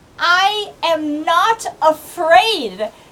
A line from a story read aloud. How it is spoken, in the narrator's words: Tuli is going to yell as loud as she can